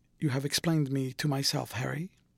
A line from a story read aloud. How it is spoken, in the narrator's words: he murmured with something of a sigh of relief